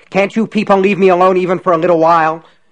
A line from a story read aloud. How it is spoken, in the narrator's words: he shouted angrily